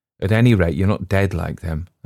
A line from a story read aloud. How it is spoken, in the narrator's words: answered Lotta